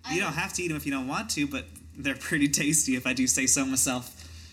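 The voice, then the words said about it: Character voice with an accent. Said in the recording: “I'm glad I've settled on a consistent accent for this one. It was real shaky at first”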